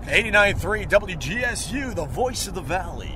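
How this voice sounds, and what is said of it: Exaggerated golden-voiced radio announcer. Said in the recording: “they teach you to have the golden voice ... Give me an opening when you're in Geneseo with your golden voice ... But you stretch things like the valley.”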